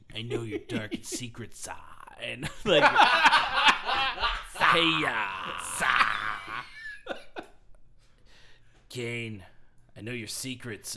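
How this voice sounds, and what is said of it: Imitates another person's voice. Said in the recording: “This is my Triple H impression.”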